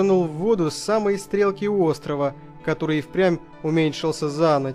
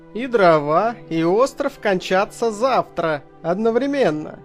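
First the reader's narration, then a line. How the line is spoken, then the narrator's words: Laughing. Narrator (Russian): засмеялся он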